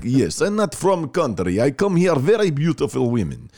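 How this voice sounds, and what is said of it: Put-on Russian accent. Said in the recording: “talking in my Russian voice”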